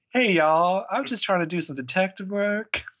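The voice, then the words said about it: Put-on Southern American accent. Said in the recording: “has an amazing Southern accent ... why is she doing a Southern accent?”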